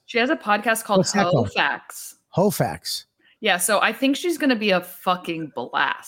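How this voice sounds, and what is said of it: New Jersey accent. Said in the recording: “I can't say in my Jersey accent, it's facts”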